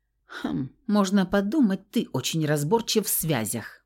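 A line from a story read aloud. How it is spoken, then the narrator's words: Scornful snort. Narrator (Russian): фыркнула я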